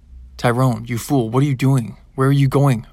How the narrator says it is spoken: roared Opa

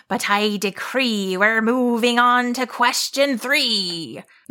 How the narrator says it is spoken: the monster growled

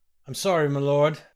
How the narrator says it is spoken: groaned Norbooth

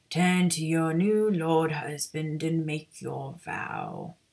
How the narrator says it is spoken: the presiding wizard intoned

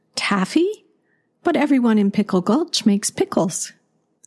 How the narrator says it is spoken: Grandmother gasped

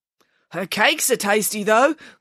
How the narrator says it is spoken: called out a younger journalist

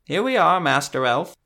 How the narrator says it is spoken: the bookseller chirped

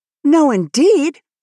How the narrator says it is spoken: said Anne indignantly

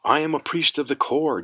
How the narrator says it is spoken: Jorid shouted

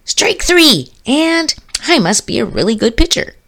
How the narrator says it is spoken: After missing on the third toss, he exclaimed

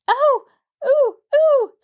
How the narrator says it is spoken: squealed Mabel

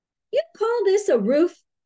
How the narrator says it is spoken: Alice's mother snorted

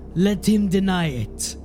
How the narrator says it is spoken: Diedrich spat

